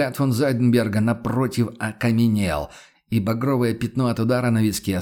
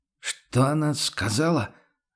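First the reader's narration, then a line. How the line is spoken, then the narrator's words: Confused, asking again. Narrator (Russian): растерянно переспросил трактирщик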